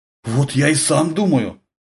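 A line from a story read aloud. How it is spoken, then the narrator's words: Confused mutter. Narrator (Russian): растерянно пробормотал сержант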